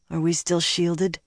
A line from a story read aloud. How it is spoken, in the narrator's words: mumbled